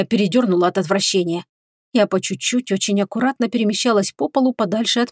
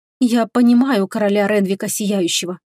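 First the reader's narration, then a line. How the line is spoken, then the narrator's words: Sighing. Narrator (Russian): вздохнула я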